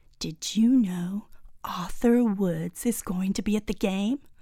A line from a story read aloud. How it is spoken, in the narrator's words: whisper into Ruby's ear